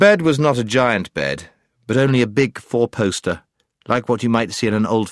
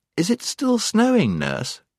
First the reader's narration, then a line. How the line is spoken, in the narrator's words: she asked sleepily